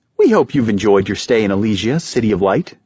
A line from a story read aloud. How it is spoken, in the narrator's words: she said cheerfully